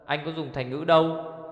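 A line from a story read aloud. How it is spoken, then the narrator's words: Angry speech. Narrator (Vietnamese): Ngu công tức giận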